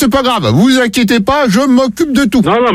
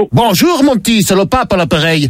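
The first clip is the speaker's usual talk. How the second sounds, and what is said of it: Put-on Belgian accent, pope voice. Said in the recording (French): “pourquoi cet accent? C'est parce que je suis le pape Léon de Bruxelles.”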